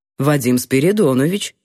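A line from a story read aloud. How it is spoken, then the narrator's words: Plain answer. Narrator (Russian): ответил мужчина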